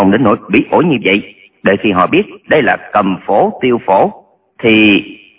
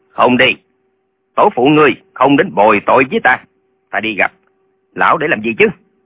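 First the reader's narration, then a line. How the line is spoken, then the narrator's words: Angry. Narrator (Vietnamese): Lệnh Hồ Xung tức giận nói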